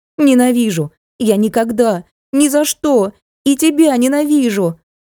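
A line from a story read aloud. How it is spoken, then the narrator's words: Angry shouting at father. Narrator (Russian): закричала она отцу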